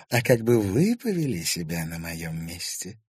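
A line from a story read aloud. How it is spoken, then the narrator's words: Calm question. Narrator (Russian): спокойно спросила Инесса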